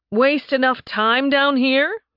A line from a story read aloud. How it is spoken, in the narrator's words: Nathan said loudly